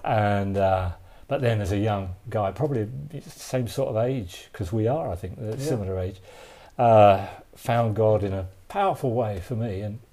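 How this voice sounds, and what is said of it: Softened East London Cockney accent. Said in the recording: “I come from London, obviously, as you hear from my accent, and East London makes me a real Cockney, which is a special, you know, accent. You're getting the refined one right now.”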